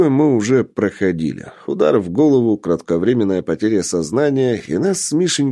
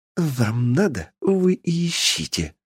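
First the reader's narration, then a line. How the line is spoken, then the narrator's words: Vengeful hiss. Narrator (Russian): Мстительно прошипел Мишенька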